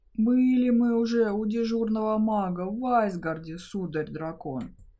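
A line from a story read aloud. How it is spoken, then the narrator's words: Sighing dwarf. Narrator (Russian): вздохнул гном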